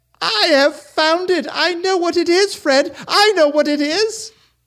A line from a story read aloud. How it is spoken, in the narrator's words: the sister cried out